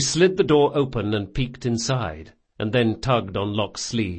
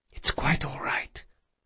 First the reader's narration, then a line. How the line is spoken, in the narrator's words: she whispered